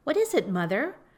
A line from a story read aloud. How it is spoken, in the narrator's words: cried the husband and wife at once